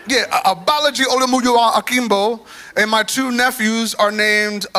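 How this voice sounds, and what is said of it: Attempted Nigerian accent on names. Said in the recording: “That's the best accent I got.”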